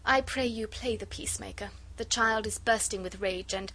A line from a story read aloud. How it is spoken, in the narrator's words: she said in that gentle, sweet, musical voice of hers